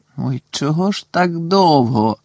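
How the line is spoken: Groaned. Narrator (Ukrainian): простогнав Рен

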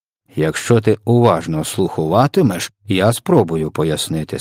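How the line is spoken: Plain. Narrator (Ukrainian): сказав ВДВ

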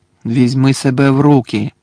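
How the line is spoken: Stern command. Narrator (Ukrainian): суворо наказав Гаррі

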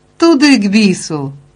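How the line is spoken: Exclamation. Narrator (Ukrainian): вигукнув Бержер

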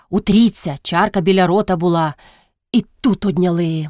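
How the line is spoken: Said angrily. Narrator (Ukrainian): мовив сердито

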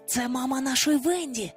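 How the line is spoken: Whisper. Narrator (Ukrainian): прошепотів він до Дзінь

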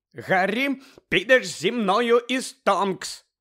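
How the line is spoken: Barked over shrieking. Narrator (Ukrainian): гаркнула місіс Візлі, перекрикуючи безперервне верещання

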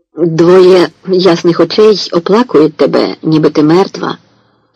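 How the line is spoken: Hoarse woman prophesying. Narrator (Ukrainian): провіщає жінка хрипким голосом

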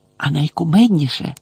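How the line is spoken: Cheerful whisper. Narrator (Ukrainian): весело прошепотіла Герміона

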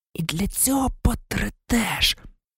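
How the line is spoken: Whisper. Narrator (Ukrainian): прошепотів Мелфой

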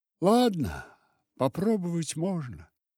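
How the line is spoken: Sad reply. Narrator (Russian): ответила Рая, грустно глядя на свою широкую талию

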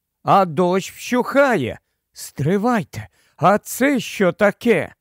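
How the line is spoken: Exclaiming. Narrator (Ukrainian): Люсі вигукнула

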